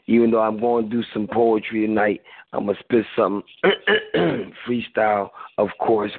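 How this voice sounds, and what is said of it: Hoarse voice. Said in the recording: “you all better be happy that I'm hoarse”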